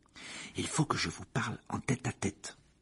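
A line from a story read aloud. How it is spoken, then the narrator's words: Murmured. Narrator (French): murmura Harry à Ron et à Hermione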